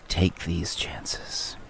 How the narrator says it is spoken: Bello looks wistfully back to the grotto and says

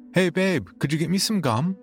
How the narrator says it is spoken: she called out

